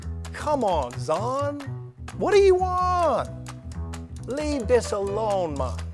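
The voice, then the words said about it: Put-on Jamaican accent. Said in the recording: “like a reggae accent at the end ... He went Jamaican there at the end.”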